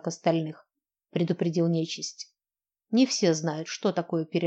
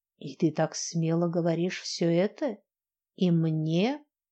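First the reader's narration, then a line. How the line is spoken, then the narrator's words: Drawled. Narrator (Russian): протянул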